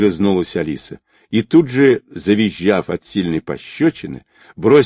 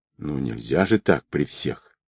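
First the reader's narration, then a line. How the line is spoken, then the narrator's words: Soft. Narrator (Russian): мягко добавила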